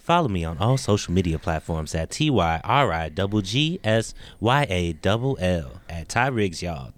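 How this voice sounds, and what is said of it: Promotional announcer-style voice. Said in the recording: “do my promotion voice.”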